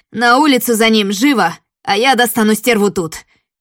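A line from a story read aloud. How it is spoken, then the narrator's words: Shouted by leader. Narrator (Russian): крикнул самый главный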